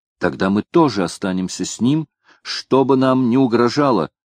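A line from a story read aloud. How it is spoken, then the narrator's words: Exclaimed. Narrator (Russian): воскликнула Минна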